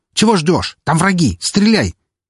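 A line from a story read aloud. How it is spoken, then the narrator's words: Shout. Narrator (Russian): закричав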